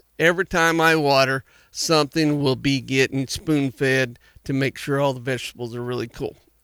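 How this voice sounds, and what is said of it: Excited, animated voice. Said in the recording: “I'm just excited. That's all I can tell you. I'm sure you can tell it in my voice.”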